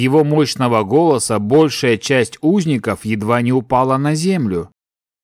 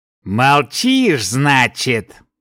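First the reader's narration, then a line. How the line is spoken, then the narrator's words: Smirking grunt. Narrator (Russian): хмыкнул он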